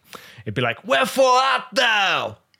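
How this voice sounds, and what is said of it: Put-on Brooklyn American accent. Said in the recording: “Is that your American accent? ... Yeah, it's Brooklyn. It's Shakespeare from Brooklyn.”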